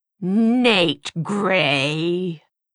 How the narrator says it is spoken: she spat

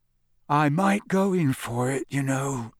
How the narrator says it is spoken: Ron said sleepily through the darkness

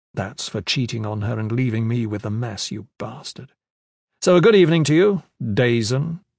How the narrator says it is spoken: the prisoner said

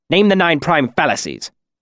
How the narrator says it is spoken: he snapped

